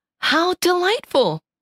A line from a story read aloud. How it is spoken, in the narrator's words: exclaimed Clarabelle, who was truly enraptured